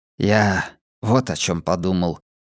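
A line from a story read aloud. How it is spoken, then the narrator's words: Barely audible. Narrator (Russian): произнёс Абеттик так тихо, что я его едва расслышал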